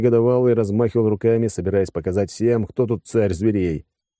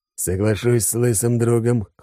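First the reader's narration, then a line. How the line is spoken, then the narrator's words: Amused snort. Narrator (Russian): хмыкнул Алекс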